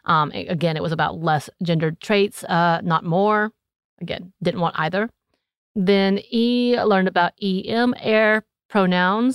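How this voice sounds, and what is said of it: Southern North Georgia accent. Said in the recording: “this is my southern accent coming out with the E-M-R ... my North Georgia accent happening here”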